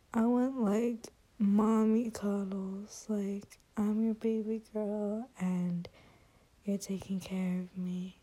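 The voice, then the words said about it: Babyish girly voice. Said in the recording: “I'm using, like, such a baby girl voice right now”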